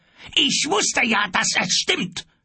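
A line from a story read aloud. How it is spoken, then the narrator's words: Male shout. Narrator (German): schrie er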